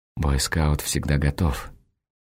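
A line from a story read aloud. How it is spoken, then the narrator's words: In an undertone. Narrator (Russian): она замечает вполголоса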